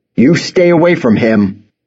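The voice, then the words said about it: Stern fatherly voice. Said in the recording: “doing his best stern dad voice”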